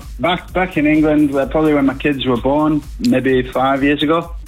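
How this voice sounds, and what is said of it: Slight English accent. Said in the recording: “I hear a little hint of an accent there. What nationality are you? ... English.”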